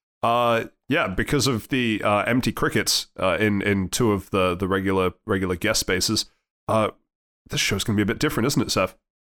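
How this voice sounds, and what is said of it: Stuffy, congested voice. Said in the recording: “my voice sounds a little different this week. I am unfortunately sick ... just with a regular cold ... it sounds stuffy as hell to me”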